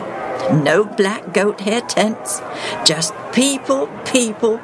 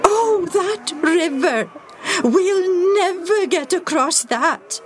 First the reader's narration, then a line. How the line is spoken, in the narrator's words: Jacob moaned